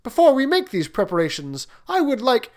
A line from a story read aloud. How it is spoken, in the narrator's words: exclaimed the prince